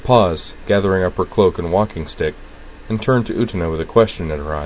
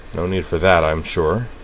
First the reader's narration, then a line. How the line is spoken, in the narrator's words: Sayonji observed dryly